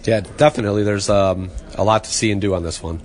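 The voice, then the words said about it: Hoarse, fading voice. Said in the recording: “My voice is going away”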